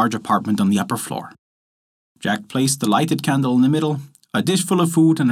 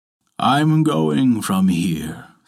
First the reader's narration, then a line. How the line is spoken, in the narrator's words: said the friar